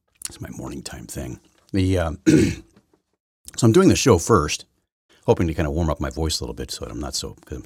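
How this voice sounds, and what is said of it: Deep dramatic morning voice. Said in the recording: “morning voice, radio announcer voice ... more dramatic voice ... This sounds more like 2 minutes and counting kind of thing. That's kind of the villain voice. The Bond villain.”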